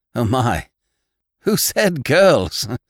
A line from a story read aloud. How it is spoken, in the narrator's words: exclaimed John Thomas